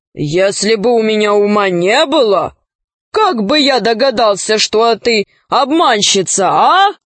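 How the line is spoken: Hero's smug guffaw. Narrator (Russian): богатырь захохотал, довольный своей сообразительностью

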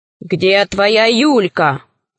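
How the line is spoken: Menacing voice. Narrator (Russian): спросил Семенов грозным голосом

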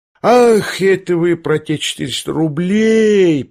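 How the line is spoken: Drawled, feigning realization. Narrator (Russian): протянул Лебедев, точно лишь сейчас только догадался

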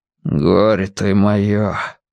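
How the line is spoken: Father's hollow voice. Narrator (Russian): глухо сказал отец

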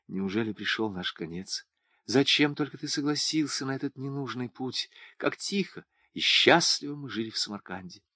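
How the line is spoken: Whispering. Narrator (Russian): Туган шептал Хаджи Рахиму

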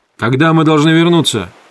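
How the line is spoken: Clipped question. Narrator (Russian): отрывисто спросил рулевой

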